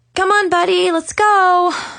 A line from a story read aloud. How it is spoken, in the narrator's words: I groaned